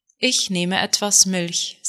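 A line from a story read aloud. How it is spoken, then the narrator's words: Plain. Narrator (German): sagte Juda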